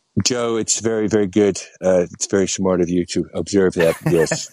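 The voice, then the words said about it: Decent Donald Trump impression. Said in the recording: “he has a few trump tales ... not a bad impression, actually ... I've heard worse. It's the best”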